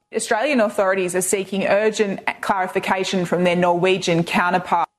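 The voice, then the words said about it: Noticeable foreign accent. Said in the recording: “I love the accent... Just give me bad news in an accent.”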